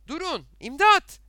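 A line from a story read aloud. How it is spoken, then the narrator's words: Shouting. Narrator (Turkish): diye bağırdı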